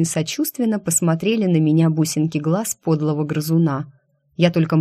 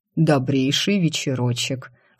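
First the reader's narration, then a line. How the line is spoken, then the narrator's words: Insinuating voice near ear. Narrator (Russian): вкрадчиво раздалось над ухом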